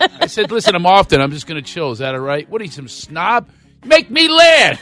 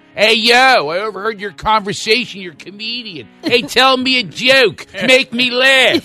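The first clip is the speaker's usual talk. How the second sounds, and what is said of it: Put-on Philadelphia accent. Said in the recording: “Romance in Philadelphia ... you ever hear the accent?”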